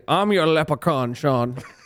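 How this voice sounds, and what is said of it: Unconvincing put-on Irish accent. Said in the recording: “accent was that? That was like a mix of Arnold with Pick Dundee. That was not an Irish accent at all... That's my Irish accent”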